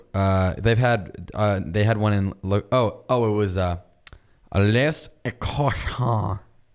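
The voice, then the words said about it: Bad fake French accent. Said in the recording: “You might have the worst fake French accent of any living human.”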